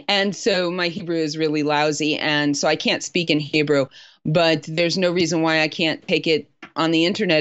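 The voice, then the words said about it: Non-native English accent. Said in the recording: “as you can tell by my accent, probably a Native American English speaker”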